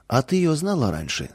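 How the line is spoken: Plain. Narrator (Russian): спросил он

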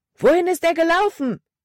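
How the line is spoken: Loud shout. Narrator (German): rief Caleb laut

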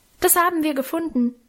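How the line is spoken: Calling out. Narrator (German): ich rief

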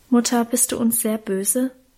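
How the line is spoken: Anxious question. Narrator (German): fragte Karl ängstlich

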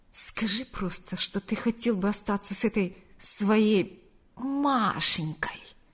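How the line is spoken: Mocking drawl. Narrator (Russian): С издевкой протянула она

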